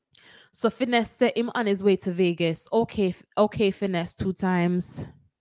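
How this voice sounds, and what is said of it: Put-on Jamaican accent. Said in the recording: “this segment of the show will be done in my Jamaican accent”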